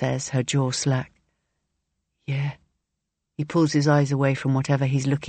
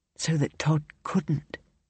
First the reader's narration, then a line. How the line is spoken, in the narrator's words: she says in almost a whisper